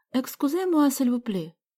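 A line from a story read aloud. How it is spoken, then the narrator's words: Persuasive voice. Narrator (Russian): убедительным голосом произнесла Галя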